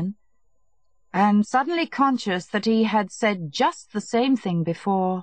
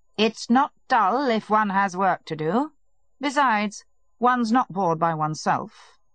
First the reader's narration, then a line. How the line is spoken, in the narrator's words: Levin replied curtly